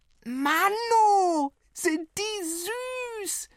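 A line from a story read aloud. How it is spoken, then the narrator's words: Bellow. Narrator (German): brüllte die Kurze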